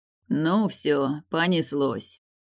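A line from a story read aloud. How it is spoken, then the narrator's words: Resigned sigh. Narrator (Russian): обреченно вздохнул Мортон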